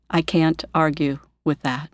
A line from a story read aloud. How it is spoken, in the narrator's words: Quietly, he says